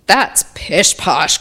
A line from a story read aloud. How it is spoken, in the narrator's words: growled the woodcarver